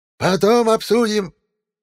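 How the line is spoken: Yelled. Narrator (Russian): заорала Баба-Яга

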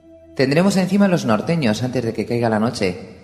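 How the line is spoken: Plain. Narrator (Spanish): les dijo

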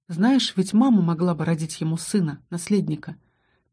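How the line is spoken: Telepathic voice, not sad. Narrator (Russian): Ментальный голос Аска не звучал грустно

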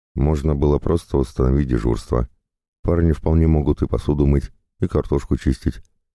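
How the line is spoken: Plain. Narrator (Russian): сказала Марина

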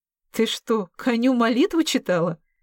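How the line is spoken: Laughing question. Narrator (Russian): смеясь, уточнила Вера

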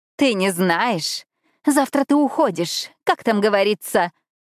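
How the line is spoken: Mocking giggle. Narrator (Russian): та прозвучала, как насмешливое хихиканье

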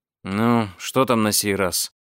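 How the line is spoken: Sleepy, irritated. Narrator (Russian): сонно и раздраженно спросил путешественник

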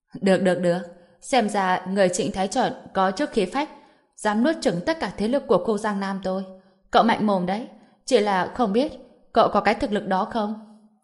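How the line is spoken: Laughing, combative. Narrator (Vietnamese): Đinh Hùng cười lớn, trong mắt chỉ toàn là vẻ hiếu chiến, nói

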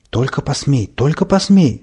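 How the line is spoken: Hissing. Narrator (Russian): зашипел я на петуха

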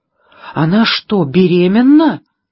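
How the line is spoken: Horrified exclamation. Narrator (Russian): в ужасе воскликнула Пэрис

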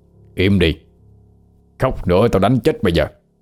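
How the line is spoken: Irritated shout. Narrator (Vietnamese): Thầy Tám bực mình bèn cầm lấy cái khăn đi vô, nhét vô miệng chị ta, rồi quát

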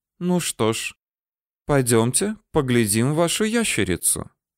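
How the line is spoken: Calm. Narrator (Russian): товарищ Эгунд спокойно сказал

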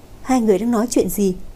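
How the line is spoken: Smiling, breaking silence. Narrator (Vietnamese): Hứa Tân Di mỉm cười đánh vỡ im lặng

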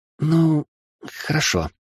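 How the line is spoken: Hesitant babbling. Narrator (Russian): неуверенно пролепетала магичка

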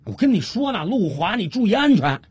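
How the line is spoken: Anxious shout. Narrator (Chinese): 小五心里急啊，他又接着喊了一句

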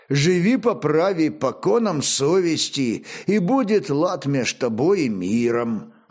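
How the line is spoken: Plain. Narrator (Russian): ответил Лемеш

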